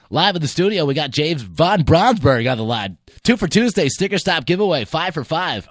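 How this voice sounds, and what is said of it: Radio announcer voice. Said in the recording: “Give the radio voice”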